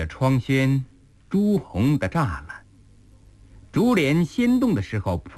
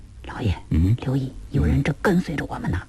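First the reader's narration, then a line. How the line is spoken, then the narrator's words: Sudden low whisper. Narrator (Chinese): 乔太突然低声对狄公道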